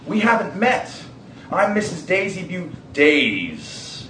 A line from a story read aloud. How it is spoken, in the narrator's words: he growled